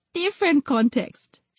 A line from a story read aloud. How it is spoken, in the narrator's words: she said with a laugh